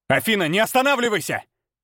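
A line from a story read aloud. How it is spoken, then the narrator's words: Barked. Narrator (Russian): рявкнул я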